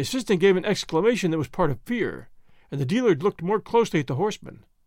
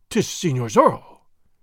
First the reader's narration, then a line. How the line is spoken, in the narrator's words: he exclaimed